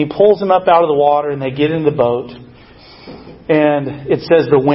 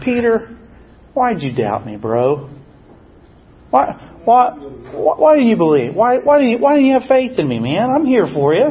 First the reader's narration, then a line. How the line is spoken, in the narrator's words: Jesus says to him, I think gently, not scoldingly or judgmentally